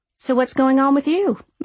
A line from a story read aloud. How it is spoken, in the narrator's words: I asked as cheerfully as I could